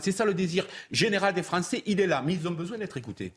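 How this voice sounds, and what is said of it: Southern French accent. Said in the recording (French): “votre accent très joli du Sud”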